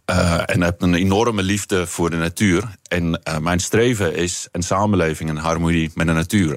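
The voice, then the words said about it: South African accent in Dutch. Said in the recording (Dutch): “ik ben opgegroeid in Zuid-Afrika. Dat horen mensen misschien eh, aan, het accent.”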